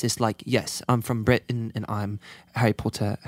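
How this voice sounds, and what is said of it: Put-on proper British accent. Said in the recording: “Can you both do a British accent? ... like there's like the proper British accent. It's more like this.”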